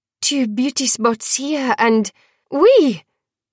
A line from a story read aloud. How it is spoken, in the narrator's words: Dior cried